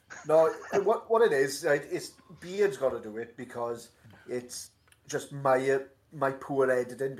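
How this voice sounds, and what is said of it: Welsh accent. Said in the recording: “my miserable Welsh accent”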